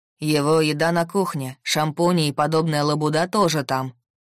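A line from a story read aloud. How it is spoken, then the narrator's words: Deep male voice. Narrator (Russian): пробасил мужчина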